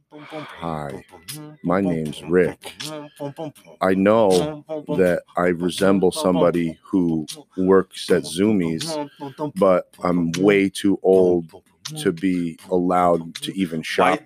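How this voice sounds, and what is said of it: Imitates another person's voice. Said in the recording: “I'm going to do an impression of you now ... Now I got to do an impression of you now”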